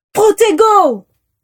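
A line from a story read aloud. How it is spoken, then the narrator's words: Group shouting in unison. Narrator (French): hurlèrent en chœur les aurores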